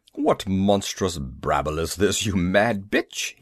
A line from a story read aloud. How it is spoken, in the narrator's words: he retorted, grunting as I bear-hugged his waist